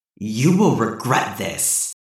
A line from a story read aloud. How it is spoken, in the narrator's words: snarled, trying his best to keep what little composure he had left